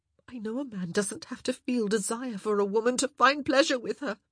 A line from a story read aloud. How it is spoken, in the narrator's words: she cried out